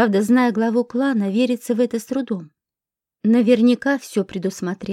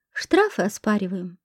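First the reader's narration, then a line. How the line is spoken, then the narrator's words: Thoughtful. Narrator (Russian): задумчиво ответила та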